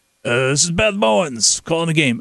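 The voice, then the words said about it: Impression of Beth Mowins. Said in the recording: “your Beth Mowins impersonation”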